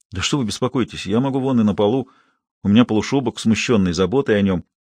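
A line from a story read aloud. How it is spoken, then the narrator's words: Mumbling. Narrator (Russian): забормотал Алешка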